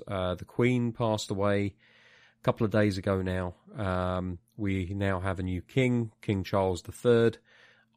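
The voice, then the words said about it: British accent. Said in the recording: “as you can tell from my accent, everybody – I do live in the UK”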